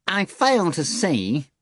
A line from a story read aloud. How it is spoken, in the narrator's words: the cat countered dryly